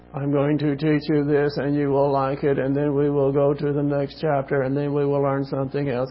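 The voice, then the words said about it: Droning monotone imitation of a teacher. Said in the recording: “would drone on like this ... monotone, the whole thing”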